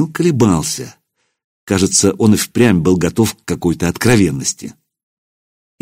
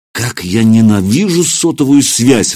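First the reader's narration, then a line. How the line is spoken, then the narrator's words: Exclamation. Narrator (Russian): воскликнул я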